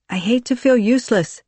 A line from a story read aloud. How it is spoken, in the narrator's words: she replied